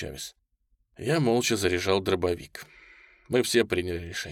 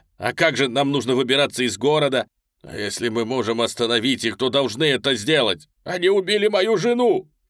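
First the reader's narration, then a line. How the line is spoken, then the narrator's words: Shouting. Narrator (Russian): крикнул Дэрил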